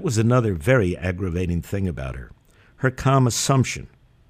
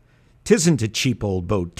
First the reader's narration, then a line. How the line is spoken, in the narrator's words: Terry cried indignantly